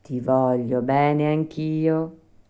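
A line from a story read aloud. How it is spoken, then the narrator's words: Plain. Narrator (Italian): rispose la fata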